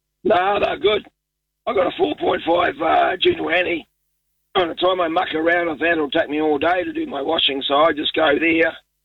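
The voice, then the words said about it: Hoarse, fading voice. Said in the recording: “I'll try to talk as good as I can. I'm losing my voice.”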